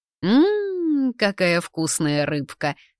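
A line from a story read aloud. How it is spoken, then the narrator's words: Purring. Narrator (Russian): промурлыкал Барбарик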